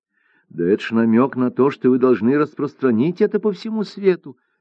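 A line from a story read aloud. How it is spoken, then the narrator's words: Exclamation. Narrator (Russian): воскликнула Цзэджи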